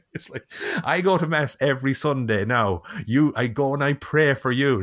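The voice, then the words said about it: Irish accent imitating a mother. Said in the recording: “your impression of your mom. You slip into that accent. ... perfect ... slipping into the Irish one”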